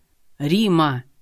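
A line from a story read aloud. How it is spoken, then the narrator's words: Bark over speakerphone. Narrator (Russian): Рявкнул в трубку, нажав громкую связь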